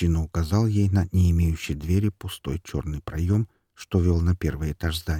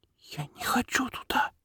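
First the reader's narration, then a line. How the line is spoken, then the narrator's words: Girl whispering. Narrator (Russian): прошептала девочка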